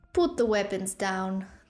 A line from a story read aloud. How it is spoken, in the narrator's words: the tiger man said with a chuckle